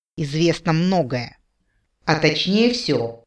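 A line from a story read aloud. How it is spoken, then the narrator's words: Insinuating whisper. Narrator (Russian): постепенно понижая голос, я говорила теперь вкрадчивым шепотом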